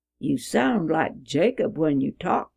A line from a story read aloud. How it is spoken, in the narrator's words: he said